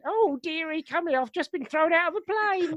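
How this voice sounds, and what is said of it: Old person's accent impression. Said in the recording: “I'm sure they don't all speak in that accent.”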